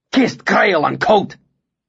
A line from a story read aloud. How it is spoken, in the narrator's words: swore furiously